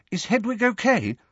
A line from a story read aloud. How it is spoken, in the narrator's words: asked Hermione anxiously